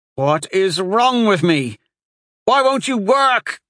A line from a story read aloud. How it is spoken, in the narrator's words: he shouted at his open palms, as though in hearing his desperation they would somehow spark to life